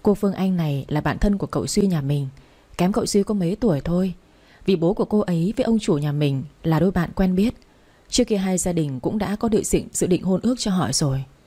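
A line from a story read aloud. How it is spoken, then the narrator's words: Sad soft whisper. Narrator (Vietnamese): Cô Anh càng buồn hơn, thủ thỉ thật nhỏ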